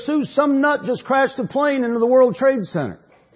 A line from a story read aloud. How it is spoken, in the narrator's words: yelled upstairs